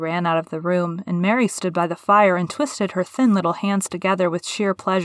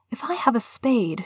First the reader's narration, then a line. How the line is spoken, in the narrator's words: she whispered